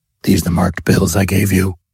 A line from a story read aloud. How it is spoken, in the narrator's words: croaked